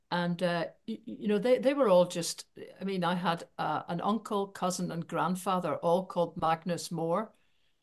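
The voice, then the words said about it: Northern Irish Belfast accent. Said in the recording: “from my accent, I grew up in Belfast”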